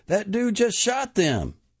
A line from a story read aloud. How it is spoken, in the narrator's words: someone yelled